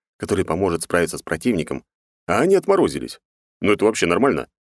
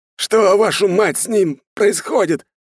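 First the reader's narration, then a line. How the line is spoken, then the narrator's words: Old man yelling. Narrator (Russian): орал старый майор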